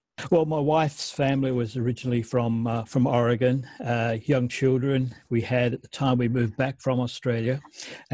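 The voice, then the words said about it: Australian accent. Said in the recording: “you've got that Australian accent”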